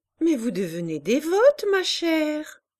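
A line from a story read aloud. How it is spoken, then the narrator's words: Laughing. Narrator (French): dit Madame de Berle en riant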